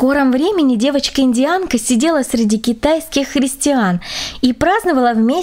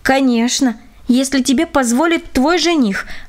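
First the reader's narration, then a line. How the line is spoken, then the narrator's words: Plain. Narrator (Russian): ответила Руфина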